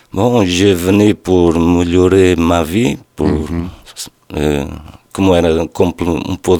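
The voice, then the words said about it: Slight Portuguese accent. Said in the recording (French): “Tu as un petit accent ... Je suis d'origine portugaise.”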